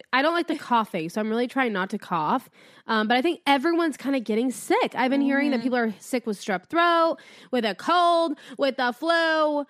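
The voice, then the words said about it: Congested, raspy voice. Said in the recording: “Don't mind my congested voice. ... Ew, you sound gross. ... I like a raspy voice. ... Let me have my raspy moment.”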